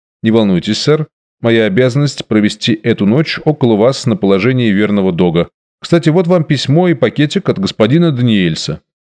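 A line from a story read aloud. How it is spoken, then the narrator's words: Calm objection. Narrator (Russian): возразил мне спокойно и на хорошем английском языке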